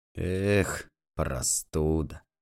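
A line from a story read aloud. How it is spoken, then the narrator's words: Pitying, disgusted grumble. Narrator (Russian): ворчал Лукич, и жалостливо и брезгливо, кривя рот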